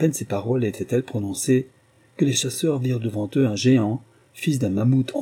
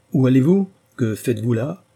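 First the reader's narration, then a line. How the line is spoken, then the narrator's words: Thundering supernatural voice. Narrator (French): dit l'être surnaturel d'une voix tonnante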